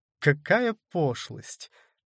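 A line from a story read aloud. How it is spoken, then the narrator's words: Laughing. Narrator (Russian): засмеялась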